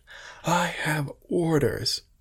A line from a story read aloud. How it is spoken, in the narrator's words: commander shout